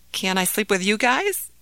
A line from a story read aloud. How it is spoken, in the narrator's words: asked Ahmed timidly